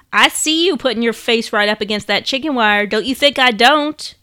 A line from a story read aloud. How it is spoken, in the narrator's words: Joni's grandpa would scoff